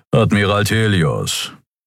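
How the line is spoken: Unimpressed growl. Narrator (German): knurrte der Skria namens Keru unbeeindruckt

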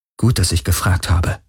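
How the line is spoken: Murmur. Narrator (German): murmelte Kirai

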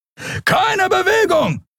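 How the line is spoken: Shouting. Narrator (German): schrie ein Weißmantel

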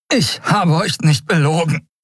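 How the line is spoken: Panting. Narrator (German): keuchte er

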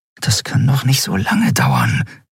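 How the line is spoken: Murmured. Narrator (German): murmelte Andriel

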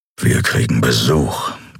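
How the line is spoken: Growled. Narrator (German): knurrte

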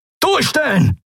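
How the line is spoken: Roar. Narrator (German): brüllte Telios

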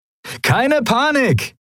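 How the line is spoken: Cheerful call. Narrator (German): rief Sephiron seinen Kumpanen in bester Laune zu

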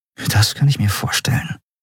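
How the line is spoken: Murmur. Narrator (German): murmelte Andriel

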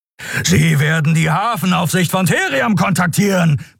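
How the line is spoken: Roaring. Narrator (German): brüllte Keru

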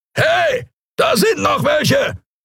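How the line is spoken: Bellowing alien voice. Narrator (German): brüllte eine Skria-Stimme

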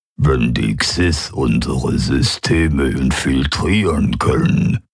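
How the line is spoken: Alien membrane rumble. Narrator (German): brummte der Vertreter der Quoira mit seinen Mundmembranen

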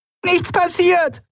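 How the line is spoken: Shouting. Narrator (German): schrie sie

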